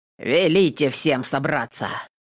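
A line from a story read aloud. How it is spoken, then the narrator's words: Grumble. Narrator (Russian): Буркнул Трофим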